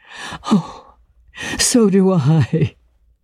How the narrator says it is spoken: cried, with a deep breath of relief

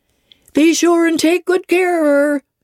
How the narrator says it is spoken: cried she to the guard

